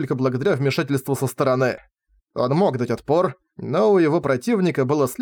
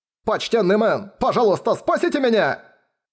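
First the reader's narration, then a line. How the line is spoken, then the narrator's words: Shouted. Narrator (Russian): он это прокричал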